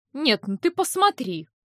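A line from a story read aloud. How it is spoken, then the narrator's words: Indignant exclamation. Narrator (Russian): возмущенно воскликнула тетя Файлина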